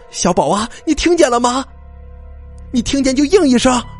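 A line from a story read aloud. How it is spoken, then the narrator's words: Calling down a well. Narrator (Chinese): 老赵的老婆对着井里就喊了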